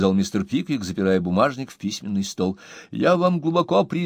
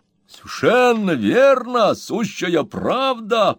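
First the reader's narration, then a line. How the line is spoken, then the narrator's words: Beaming, exclaiming. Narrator (Russian): просияв, воскликнул мистер Уэллер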